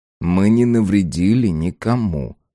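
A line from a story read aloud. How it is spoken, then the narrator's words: Muttering. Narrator (Russian): пробормотал Арбин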